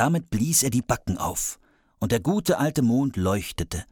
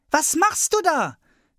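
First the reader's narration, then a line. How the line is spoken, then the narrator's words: Child calling upward. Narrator (German): rief der kleine Hävelmann hinauf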